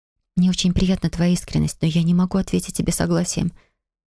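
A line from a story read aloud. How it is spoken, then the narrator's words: Quiet. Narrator (Russian): тихо проговорила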